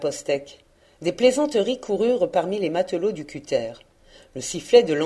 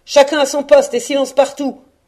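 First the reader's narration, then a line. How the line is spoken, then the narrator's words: Boatswain's growled order. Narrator (French): gronda le maître d'équipage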